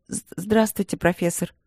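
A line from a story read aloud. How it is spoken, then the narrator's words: Businesslike tone. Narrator (Russian): деловым тоном начала ее высочество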